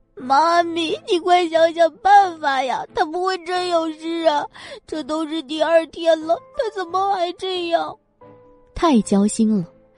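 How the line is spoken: Frightened, tearful urging. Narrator (Chinese): 叶子熙也急着跟过来，越看越怕，便带了哭声的催道

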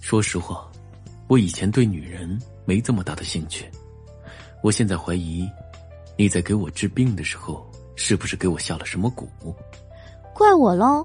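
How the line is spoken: Soft voice. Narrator (Chinese): 轻声说道

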